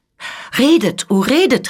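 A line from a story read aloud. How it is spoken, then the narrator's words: Delighted exclamation. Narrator (German): rief die Scuderie, indem ihr die Augen glänzten vor Entzücken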